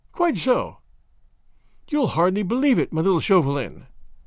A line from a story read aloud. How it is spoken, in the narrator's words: she said earnestly